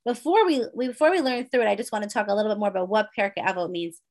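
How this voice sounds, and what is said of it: Hoarse, sore-throated voice. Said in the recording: “my throat's getting hoarse ... I have a little bit of a sore throat.”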